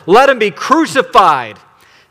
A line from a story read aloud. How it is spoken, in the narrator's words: they shouted all the more